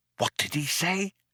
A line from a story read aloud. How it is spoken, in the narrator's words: whispered Ford in astonishment